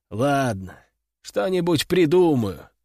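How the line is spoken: Sigh. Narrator (Russian): вздохнул я

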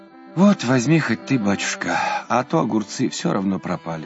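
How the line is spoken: Sighed. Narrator (Russian): вздохнула она

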